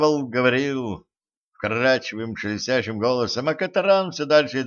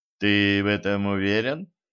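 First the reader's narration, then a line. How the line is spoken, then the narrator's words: Gloomy question. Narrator (Russian): мрачно спросил Денис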